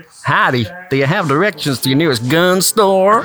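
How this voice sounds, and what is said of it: Fairly good put-on American accent. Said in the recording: “read these sentences in your best American accent. ... That was pretty good.”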